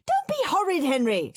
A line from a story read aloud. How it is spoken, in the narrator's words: screamed Mum